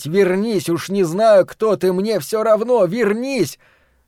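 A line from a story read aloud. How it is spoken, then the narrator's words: Frantic urge to shout. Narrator (Russian): Ларри внезапно охватило безумное желание … закричать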